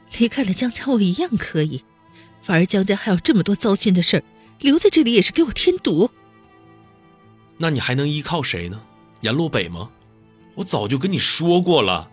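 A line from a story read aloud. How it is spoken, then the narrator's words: Sneering. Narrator (Chinese): 温思思冷笑一声道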